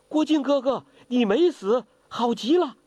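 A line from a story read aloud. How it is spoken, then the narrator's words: Joyful shouting. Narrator (Chinese): 华筝欢声大叫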